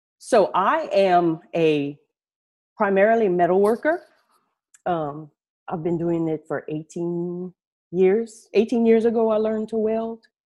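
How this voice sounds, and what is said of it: South Louisiana accent. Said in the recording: “I'm from down south in Louisiana, way down south in Louisiana. I'm sure you can tell through my accent... So if you detect an accent, that's why.”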